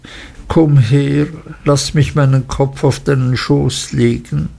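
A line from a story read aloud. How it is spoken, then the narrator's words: Sobbing. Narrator (German): schluchzte Emily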